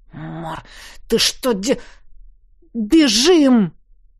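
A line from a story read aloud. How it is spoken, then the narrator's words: Hiss. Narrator (Russian): прошипел я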